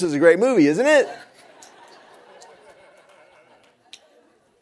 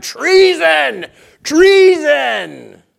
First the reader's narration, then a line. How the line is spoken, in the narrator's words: Athaliah shouted